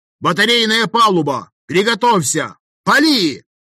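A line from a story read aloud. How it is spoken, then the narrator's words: Bellowing at full volume. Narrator (Russian): Рявкнул я во всю глотку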